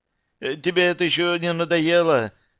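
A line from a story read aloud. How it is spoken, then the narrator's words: Frightened question in Russian. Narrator (Russian): с тем же испуганным голосом по-русски спросил Витя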